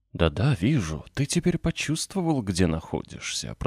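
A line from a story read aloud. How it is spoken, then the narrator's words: Old man's restrained whisper. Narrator (Russian): продолжал старик сдержанным шепотом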